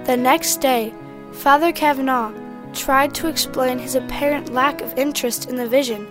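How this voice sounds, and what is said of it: Irish brogue. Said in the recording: “your dulcet uh, um, Irish brogue ... my Irish brogue”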